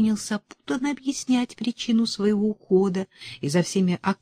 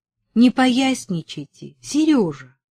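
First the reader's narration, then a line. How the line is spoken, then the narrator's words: Stern. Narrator (Russian): строго сказала Верочка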